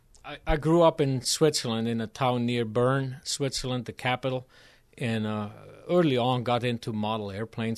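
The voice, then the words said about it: Foreign, non-American accent. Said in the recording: “Your accent tells me that you're not from any of the regions here in Iowa, and perhaps further away is where your origins are.”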